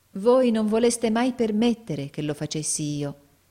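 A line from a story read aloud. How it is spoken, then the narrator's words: Loving reproach. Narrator (Italian): disse Nicola in tono di amorevole rimprovero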